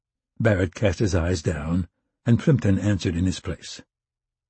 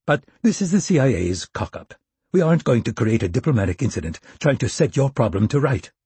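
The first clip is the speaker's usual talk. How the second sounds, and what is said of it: Posh British accent. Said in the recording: “in an accent that seemed to get more posh every year”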